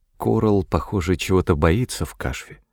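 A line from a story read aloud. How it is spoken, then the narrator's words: Whisper. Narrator (Russian): прошептала Виала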